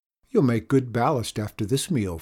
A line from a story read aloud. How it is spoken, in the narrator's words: Father chuckled